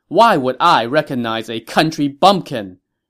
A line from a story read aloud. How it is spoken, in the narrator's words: Ma Chao scoffed